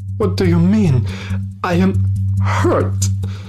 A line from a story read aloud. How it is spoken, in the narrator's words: yelled instantly, feeling pain in his chest